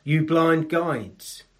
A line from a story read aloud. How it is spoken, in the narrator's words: Jesus said